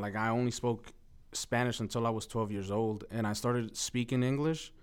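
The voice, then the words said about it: New York accent, non-native speaker. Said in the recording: “this New York accent, but at the same time, like, second language. So it came out, like, very mumbly. ... people are like, are you from New York?”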